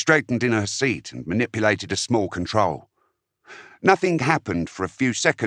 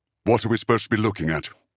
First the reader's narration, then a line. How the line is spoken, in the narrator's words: Systriel said, the tone of his voice very different to the artificial lightness it had contained a few moments before